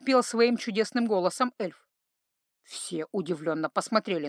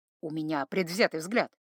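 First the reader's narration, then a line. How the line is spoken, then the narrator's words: Grumbled mutter. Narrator (Russian): буркнул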